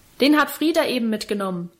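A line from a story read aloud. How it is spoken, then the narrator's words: Cook calling from kitchen. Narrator (German): rief da die Köchin aus ihrer Küche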